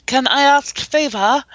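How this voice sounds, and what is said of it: Put-on Russian accent. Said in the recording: “she was like a Russian accent or something ... I'm trying to do an accent.”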